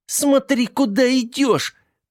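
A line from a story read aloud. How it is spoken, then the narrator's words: Shrill squeal through clenched teeth. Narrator (Russian): провизжала она сквозь сжатые зубы, из которых торчали гвозди с плоскими головками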